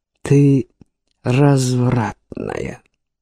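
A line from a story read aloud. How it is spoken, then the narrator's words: Yielding moan. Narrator (Russian): он почувствовал, что сдается, и простонал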